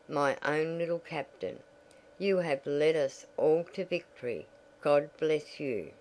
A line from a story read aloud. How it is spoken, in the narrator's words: he murmured